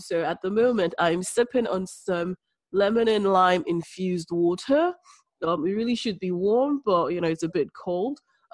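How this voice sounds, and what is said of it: Congested voice from a cold. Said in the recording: “I've got a cold again. I'm constantly having a cold. ... helping to keep my nasal passages a bit open”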